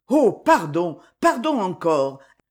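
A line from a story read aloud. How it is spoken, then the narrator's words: Exclaimed. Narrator (French): s'exclama Maxime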